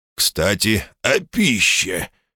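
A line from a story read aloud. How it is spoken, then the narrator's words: Displeased tone. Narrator (Russian): тем же недовольным тоном продолжил батюшка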